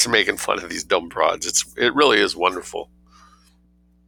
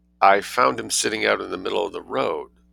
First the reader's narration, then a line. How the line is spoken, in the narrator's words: said Rosemarie weakly